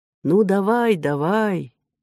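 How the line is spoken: Quiet, awed. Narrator (Russian): тихо сказал переводчик Мери, будто сам никогда раньше не видал драконов

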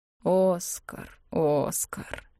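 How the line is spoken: Sorrowful mutter. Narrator (Russian): горестно пробормотал Клавдий

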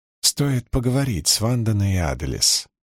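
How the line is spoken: Soft. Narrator (Russian): мягко сказала она

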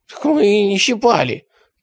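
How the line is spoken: Hoarse wheeze. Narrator (Russian): прохрипел Недослав

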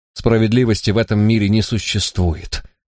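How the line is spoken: Quiet. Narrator (Russian): негромко произнес Ликон

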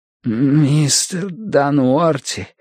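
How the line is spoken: Hoarse wheeze. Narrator (Russian): прохрипел Бадри

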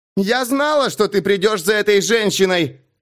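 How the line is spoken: Shout with thunder. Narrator (Russian): крикнула Кассандра, и раскат грома подчеркнул ее слова

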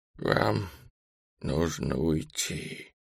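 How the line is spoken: Wheezing widow. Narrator (Russian): просипела вдова

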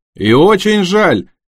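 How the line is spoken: Shouted. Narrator (Russian): крикнул Джим

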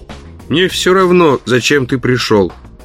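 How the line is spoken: Grumbling. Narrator (Russian): проворчал он

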